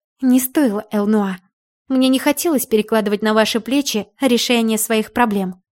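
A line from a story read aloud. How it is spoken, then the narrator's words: Plain. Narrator (Russian): сказала я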